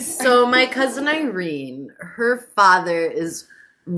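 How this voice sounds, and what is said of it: Usual voice. Nothing is said of it.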